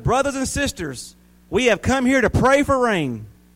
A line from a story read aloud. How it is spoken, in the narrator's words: He shouted